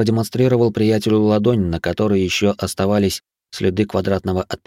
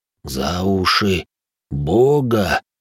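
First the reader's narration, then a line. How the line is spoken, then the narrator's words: Hoarse whisper. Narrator (Russian): севшим голосом прошептал енот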